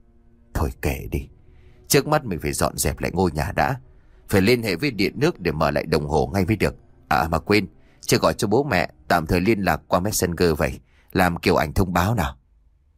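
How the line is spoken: Sighing murmur to self. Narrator (Vietnamese): Phú lúc này khẽ thở dài rồi tự nhủ

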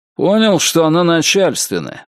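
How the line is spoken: Grumbling. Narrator (Russian): пробурчал Зарубин

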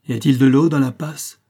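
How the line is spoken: Shouted. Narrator (French): cria M

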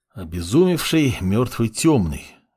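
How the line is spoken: Sigh. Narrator (Russian): вздохнул Фар

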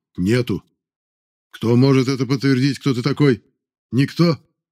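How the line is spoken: Snort. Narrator (Russian): И опять хмыкнул

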